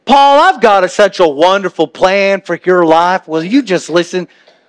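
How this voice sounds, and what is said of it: Southern drawl Jesus voice. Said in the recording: “Southern Jesus with the southern drawl”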